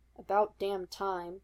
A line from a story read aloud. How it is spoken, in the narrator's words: Sam grumbled good-naturedly from the table in the middle of the main room